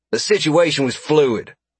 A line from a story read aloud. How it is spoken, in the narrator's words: Carson snapped at the pilot